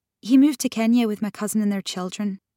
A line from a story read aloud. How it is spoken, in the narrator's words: Grace said quickly